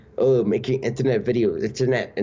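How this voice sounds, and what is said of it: Puts on an unidentified accent. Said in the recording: “I don't know what that accent was”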